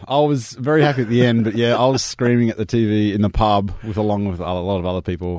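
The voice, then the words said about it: Slightly croaky voice. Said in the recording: “my voice is a little croaky from yelling at the screen.”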